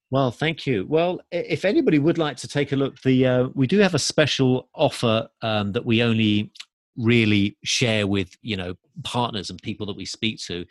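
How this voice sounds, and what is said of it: English accent. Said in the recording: “I'm welcome from England, back. As you can tell from my accent”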